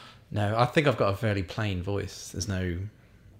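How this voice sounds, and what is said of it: Usual voice. Nothing is said of it.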